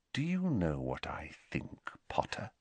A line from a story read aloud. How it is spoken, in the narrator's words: said Snape very quietly